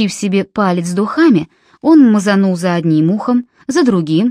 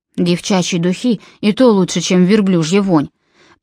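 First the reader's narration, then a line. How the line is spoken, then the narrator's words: Grumbling. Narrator (Russian): проворчал Джон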